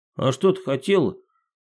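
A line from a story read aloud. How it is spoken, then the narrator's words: Stern after laughing. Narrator (Russian): отсмеявшись строго сказал Тимофей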